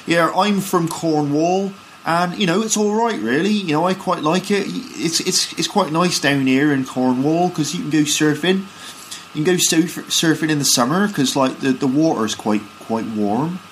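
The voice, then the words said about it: Cornish accent with rounded R. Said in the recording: “you've got the Cornwall accent, a kind of Cornish accent. And in Cornwall, they sort of speak a bit like this ... in the Cornish accent, the R sound is rounded, warm ... you do get a kind of rounded R”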